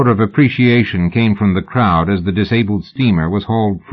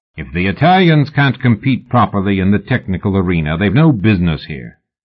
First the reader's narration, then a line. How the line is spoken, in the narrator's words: the older man said sternly